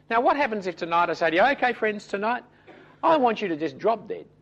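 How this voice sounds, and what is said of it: Accented, fast, loosely enunciated speech. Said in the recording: “my accent. Some of you still can't understand the words I say because I say them so quickly and so badly enunciated”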